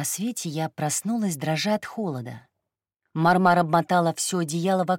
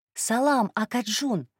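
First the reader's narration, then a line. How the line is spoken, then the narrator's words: Shout. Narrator (Russian): крикнула я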